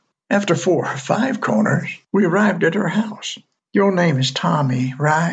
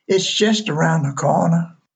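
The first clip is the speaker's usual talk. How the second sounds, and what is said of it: Sweet southern drawl. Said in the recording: “with that sweet southern drawl.”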